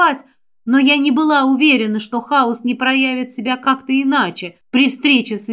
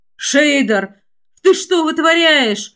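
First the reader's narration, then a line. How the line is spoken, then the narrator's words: Distant exclamation. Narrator (Russian): Где-то там, в глубинах ночи, воскликнул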